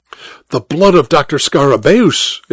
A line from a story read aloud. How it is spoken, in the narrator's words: exclaimed Dr